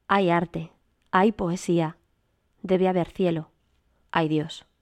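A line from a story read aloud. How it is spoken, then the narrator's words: Sudden troubled exclamation. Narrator (Spanish): conturbada, exclamé de repente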